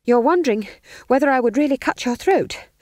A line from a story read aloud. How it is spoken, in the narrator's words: panted Magrat